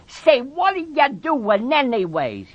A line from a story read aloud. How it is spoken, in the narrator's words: He cried